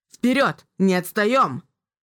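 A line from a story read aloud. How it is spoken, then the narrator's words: Commander shouting. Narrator (Russian): крикнул командующий Фистер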